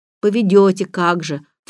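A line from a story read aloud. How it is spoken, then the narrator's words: Snorted. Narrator (Russian): фыркнул Роберт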